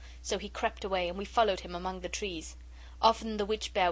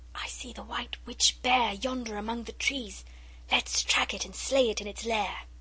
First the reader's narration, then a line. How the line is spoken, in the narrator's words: Alice whispered